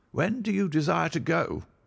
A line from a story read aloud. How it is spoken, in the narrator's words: he asked coldly